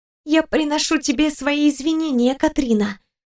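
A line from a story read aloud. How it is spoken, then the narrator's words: Whisper. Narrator (Russian): прошептала крылатая девушка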